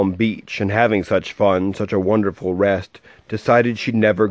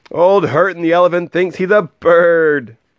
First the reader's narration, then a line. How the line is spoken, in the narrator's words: They laughed and they laughed